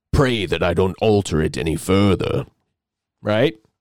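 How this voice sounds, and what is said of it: Poor impression of a film villain. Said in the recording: “terrible Darth Vader impression.”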